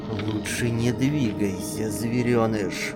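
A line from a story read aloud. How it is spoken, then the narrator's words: Hissing threatening whisper. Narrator (Russian): свистящий угрожающий шепот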